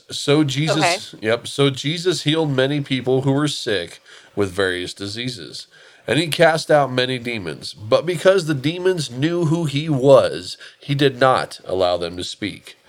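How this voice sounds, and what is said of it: Dramatic narrator-style reading voice. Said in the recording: “I kind of went to my narrator voice there for a minute, a little bit.”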